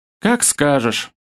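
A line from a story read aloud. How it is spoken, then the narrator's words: Sighing schoolgirl. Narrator (Russian): вздохнула школьница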